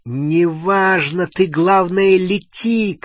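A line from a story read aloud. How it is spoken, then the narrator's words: Shouted over shoulder. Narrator (Russian): крикнул себе за спину Гарри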